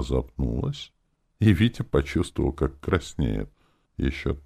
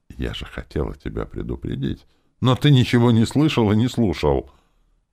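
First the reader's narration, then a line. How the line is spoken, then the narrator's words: Rapid chatter. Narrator (Russian): она быстро затараторила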